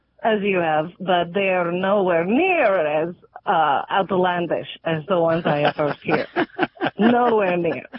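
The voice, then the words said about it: Foreign accent. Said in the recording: “I'm hearing an accent”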